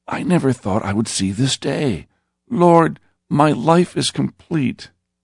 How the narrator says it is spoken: With tears running from his eyes, he said shakily

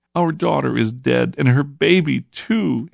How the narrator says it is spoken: he sobbed in reply

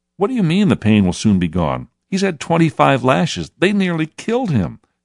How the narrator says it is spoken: said one man indignantly

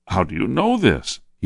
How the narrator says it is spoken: He cried

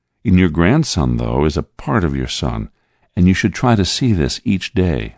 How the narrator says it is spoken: I said softly

